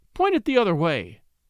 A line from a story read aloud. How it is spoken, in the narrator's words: cried the lady, with true feminine tact